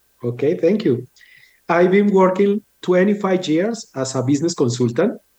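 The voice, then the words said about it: Colombian Spanish accent. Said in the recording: “I love your accent because when you come from Colombia”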